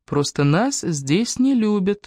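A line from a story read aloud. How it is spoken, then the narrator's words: Calm reply. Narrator (Russian): спокойно ответила Эбби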